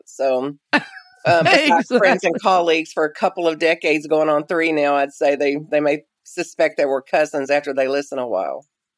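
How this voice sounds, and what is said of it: Southern American accent. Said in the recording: “we got a Southern accent.”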